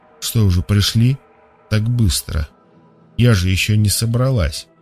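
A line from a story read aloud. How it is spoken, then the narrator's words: Muttering to herself. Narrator (Russian): Сама себе пробормотала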